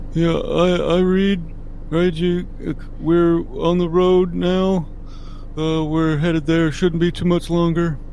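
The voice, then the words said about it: Odd, congested-sounding voice. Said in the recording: “You sound weird. ... I have a cold.”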